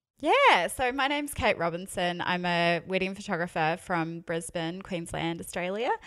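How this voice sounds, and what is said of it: New Zealand accent. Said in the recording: “You can probably tell by my accent, I am a Kiwi.”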